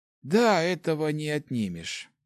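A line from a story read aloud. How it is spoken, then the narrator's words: Sighing. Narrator (Russian): вздохнул Хорд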